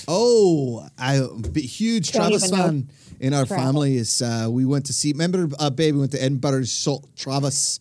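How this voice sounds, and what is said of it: Slight Scottish accent. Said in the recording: “your Scottish accent makes you sound like Fran Healy... my wee bit of Scottish accent”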